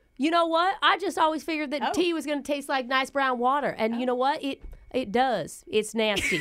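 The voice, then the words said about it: Slight put-on country accent. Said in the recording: “It's a little country accent. ... I would say ish.”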